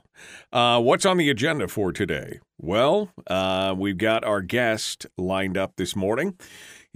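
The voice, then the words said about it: Unusually deep voice. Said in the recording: “Today is a deep voice day, I can tell.”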